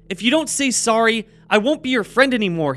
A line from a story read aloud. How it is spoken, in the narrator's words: he cried